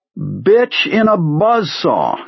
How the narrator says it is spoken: he cried

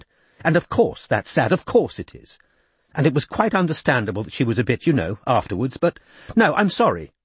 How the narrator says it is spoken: she said crossly

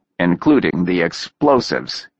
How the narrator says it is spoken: he added dryly

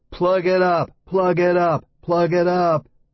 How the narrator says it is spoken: the same girls shouting

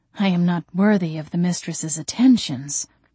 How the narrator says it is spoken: he said in a hushed, reverent tone

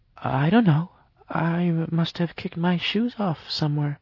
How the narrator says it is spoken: she said hesitantly

